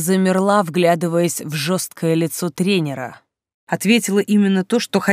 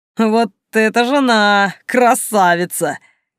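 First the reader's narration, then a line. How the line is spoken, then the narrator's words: Laughing reply. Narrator (Russian): Рассмеялся в ответ тренер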